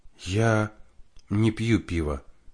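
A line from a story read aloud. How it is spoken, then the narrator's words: Quiet confession, young woman. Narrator (Russian): тихо призналась девушка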